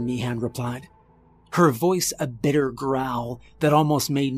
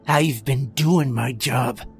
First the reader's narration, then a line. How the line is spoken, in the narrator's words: Croft growled